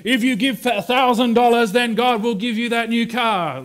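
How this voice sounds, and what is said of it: Put-on American accent. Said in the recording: “I went to an American accent when I was trying that on”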